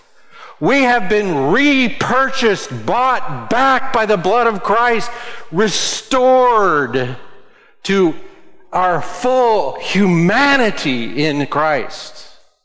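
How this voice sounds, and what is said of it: Breathless, out-of-breath speech. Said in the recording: “now I'm all out of breath from all that exulting”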